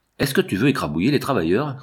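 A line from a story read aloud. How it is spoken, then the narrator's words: Man sneering. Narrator (French): ricana un homme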